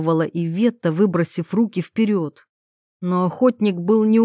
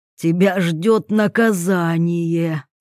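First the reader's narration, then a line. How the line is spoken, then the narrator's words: Villainous voice. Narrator (Russian): злодейским голосом пообещал Вольных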